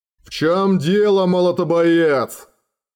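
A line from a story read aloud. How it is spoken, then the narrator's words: Growling. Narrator (Russian): прорычал Кул Наргардсвок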